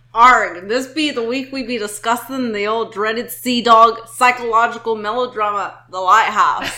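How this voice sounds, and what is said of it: Put-on accent. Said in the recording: “If you could not tell by my accent.”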